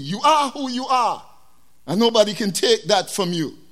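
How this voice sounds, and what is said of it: West Indian accent. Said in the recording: “I'm a black man from the islands. I have an accent. ... I am West Indian.”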